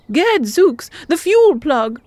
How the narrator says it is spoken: exclaimed Ingot

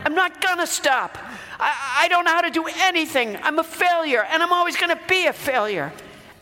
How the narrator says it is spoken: I yelled back

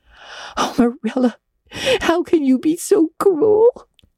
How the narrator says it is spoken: sobbed Anne

